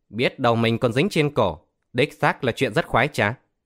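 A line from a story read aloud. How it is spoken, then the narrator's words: Loud laughter. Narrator (Vietnamese): Tiểu Cao cười lớn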